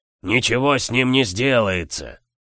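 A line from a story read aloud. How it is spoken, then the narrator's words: Ruler roaring. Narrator (Russian): проревел правитель Нерео Магаса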